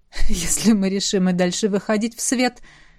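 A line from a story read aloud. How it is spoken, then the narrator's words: Through laughter. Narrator (Russian): сказал Ронал сквозь смех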